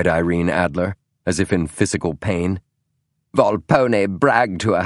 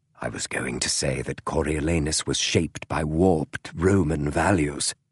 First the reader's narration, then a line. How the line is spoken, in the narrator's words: whispered Sherlock